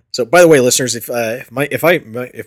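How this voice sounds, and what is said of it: Hoarse, fading low voice. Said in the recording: “my voice gets too low, sorry, uh, I'm slowly losing my voice today ... Laryngitis”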